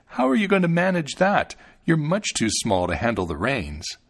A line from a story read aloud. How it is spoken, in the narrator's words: The man laughed and said